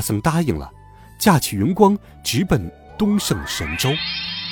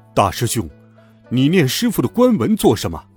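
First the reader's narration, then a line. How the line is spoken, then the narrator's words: Sharp shout. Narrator (Chinese): 那悟空竟喝道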